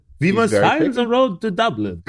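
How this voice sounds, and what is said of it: Put-on bad French accent. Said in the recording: “Why does he have a French accent? ... Is that your French accent? ... that was me doing his horrible French accent.”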